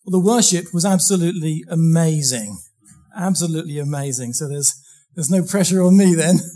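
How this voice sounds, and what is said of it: Slightly hoarse voice. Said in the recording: “I've got a bit of a bad chest, so I'll try not to cough. My throat might be a little bit hoarse.”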